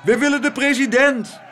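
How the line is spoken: Crowd shouting outside. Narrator (Dutch): schreeuwde de menigte buiten

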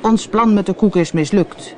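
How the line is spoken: Calling out. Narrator (Dutch): riep kapitein Haak

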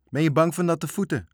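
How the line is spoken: Shouting after someone. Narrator (Dutch): schreeuwde Marinka hem na

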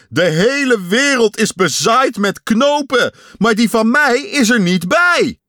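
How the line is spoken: Shouting. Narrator (Dutch): Hij sprong op en neer en schreeuwde

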